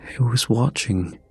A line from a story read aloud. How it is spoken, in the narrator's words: whispered